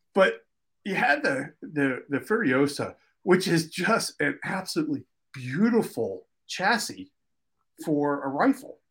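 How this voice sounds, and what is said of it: Philadelphia East Coast accent. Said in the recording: “my East Coast accent, because I grew up in Philly, sometimes my Philly accent just totally overrides words”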